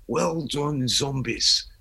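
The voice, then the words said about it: Attempted Liverpool accent. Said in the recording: “I can't really do a Liverpool accent”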